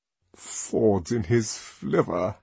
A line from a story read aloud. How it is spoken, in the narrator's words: murmured the DHC